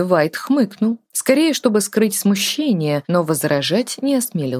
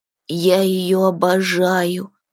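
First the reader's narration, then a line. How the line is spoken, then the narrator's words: Lovesick moan. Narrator (Russian): влюбленно простонал Тин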